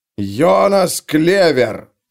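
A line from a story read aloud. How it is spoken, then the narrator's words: Roaring. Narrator (Russian): проревел он в окошечко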